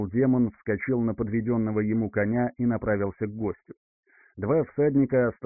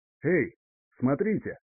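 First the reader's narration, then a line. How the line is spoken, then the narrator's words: Shout. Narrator (Russian): крикнул барон Хенрик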